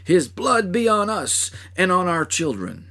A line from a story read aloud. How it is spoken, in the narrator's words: The mocking soldiers, the priests and rulers, and the maddened throng who cried